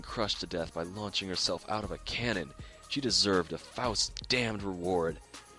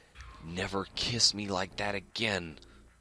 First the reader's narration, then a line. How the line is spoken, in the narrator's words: She snarled, spitting